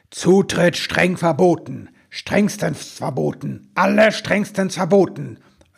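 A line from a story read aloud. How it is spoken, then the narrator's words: Thundering voice. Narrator (German): donnerte die Stimme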